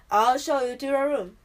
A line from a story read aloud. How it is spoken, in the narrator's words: he said gruffly